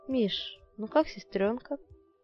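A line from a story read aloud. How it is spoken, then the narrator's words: Plain. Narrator (Russian): спросила Людмила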